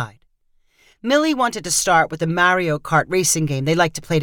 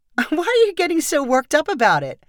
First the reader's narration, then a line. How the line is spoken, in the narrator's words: Millie asked with a laugh